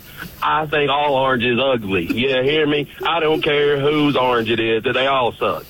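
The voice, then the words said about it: East Tennessee Southern accent. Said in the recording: “As you can tell, this accent is from Knoxville, Tennessee.”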